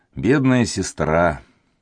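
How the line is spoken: Sad whisper. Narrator (Russian): Маркиз грустно прошептал

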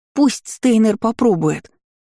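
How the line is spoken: Agreeing yell. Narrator (Russian): заорала я, полностью согласная с Изабель

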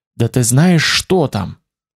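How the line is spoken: Fervent whisper. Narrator (Russian): прошептал горячо, едва не обжигая мне ухо

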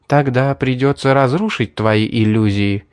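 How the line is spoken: Gentle. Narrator (Russian): мягко сказала Мэри

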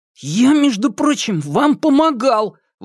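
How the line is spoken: Angry exclamation, grunting. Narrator (Russian): воскликнул рассерженно хрюкнул

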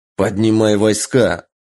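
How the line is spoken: Short growl. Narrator (Russian): рыкнул Таро

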